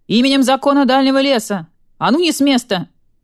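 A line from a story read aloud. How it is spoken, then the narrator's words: Half-asleep roaring. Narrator (Russian): Спросонья взревел барсук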